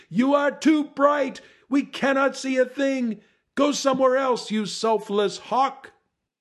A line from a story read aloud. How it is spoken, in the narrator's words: The people squinted and screamed